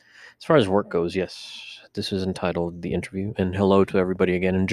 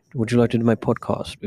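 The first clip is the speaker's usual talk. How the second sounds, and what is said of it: Put-on gentle British accent. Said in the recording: “does not have a ginger accent like this. A gingerly British accent.”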